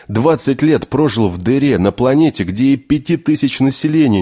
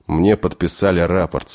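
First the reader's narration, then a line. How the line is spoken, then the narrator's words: Calm reply. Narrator (Russian): спокойно ответил Денис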